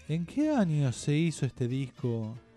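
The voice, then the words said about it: Radio announcer voice. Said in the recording (Spanish): “Voy a poner voz de locutor.”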